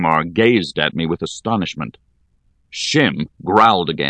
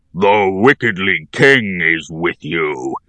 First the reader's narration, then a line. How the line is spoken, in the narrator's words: he roared with rage